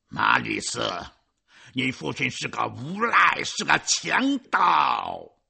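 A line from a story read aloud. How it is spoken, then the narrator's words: Roaring. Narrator (Chinese): 基诺曼听后吼叫着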